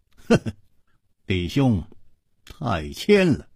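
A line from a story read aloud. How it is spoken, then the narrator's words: Smiling. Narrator (Chinese): 楚留香微笑着说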